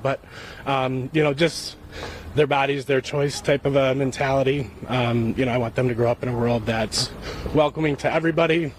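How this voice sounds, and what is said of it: Emotional, choked-up voice. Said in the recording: “I'm getting a little emotional about that”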